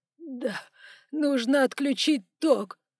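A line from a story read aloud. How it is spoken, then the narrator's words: Sobbing. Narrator (Russian): уже вовсю рыдал начальник кассы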